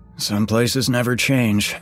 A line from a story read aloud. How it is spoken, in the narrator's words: grumbled Shane … in disgust